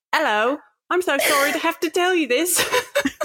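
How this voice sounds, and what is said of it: Attempted British accent sounding Australian. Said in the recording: “adopt a British accent... I'm sounding very Australian... a bad mixture of both”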